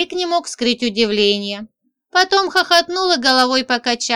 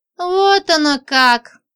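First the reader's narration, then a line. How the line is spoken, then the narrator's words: Displeased sigh, old man. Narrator (Russian): Старик вздохнул, недовольно косясь на меня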